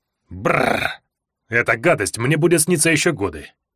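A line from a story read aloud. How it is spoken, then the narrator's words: Grumbled. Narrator (Russian): проворчал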